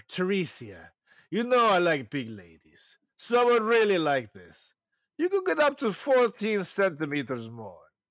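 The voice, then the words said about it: Imitates another person's accent. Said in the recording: “I'm doing what I think his accent would be like.”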